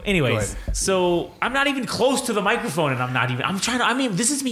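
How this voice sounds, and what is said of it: Very loud speaking voice. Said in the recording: “talking that loud... I'm still bleeding loud from my ears... I fucking can't not talk loud... I'm a loud fucking guy”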